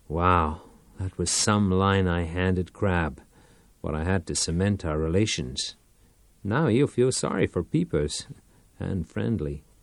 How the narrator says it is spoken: grinned and muttered

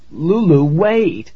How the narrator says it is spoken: I pleaded

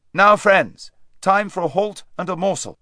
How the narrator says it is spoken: King Edmund called out

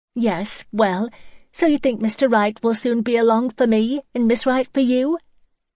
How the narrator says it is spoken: Her giggle bubbled out as usual

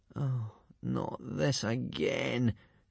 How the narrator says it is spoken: groaned Hiccup and Fishlegs to themselves

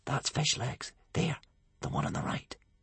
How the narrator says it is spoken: one hooligan whisper to a bog burglar

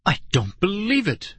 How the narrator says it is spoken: Dad cried

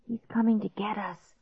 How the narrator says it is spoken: Clark whispered

